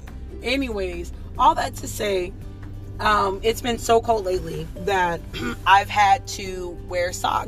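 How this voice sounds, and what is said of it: Hoarse voice, clearing throat. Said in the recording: “You guys hear her clearing her throat? ... my voice is still hoarse ... Still hoarse from Sunday.”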